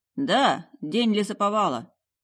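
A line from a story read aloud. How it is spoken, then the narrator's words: Amused snort. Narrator (Russian): Алистер хмыкнул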